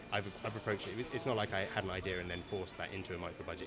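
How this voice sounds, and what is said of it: English accent. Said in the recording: “I hear an English accent”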